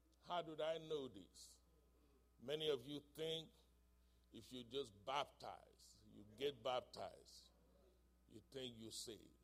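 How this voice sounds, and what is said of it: Thick foreign accent in English. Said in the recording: “I can barely speak English. I have a thick accent.”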